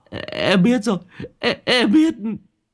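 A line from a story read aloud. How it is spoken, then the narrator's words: Terrified trembling stammer. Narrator (Vietnamese): Thằng đầu chọc run cầm cập lắp bắp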